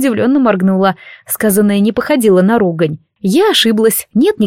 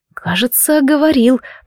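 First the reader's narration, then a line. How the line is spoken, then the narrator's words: Muttered. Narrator (Russian): пробормотала я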